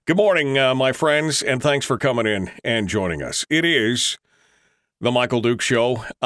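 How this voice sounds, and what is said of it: Unusually deep morning voice. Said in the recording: “I've got the deep voice this morning ... this is the morning to go out and do all those movie trailers”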